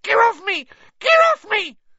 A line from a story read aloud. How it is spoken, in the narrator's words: squealed the gnome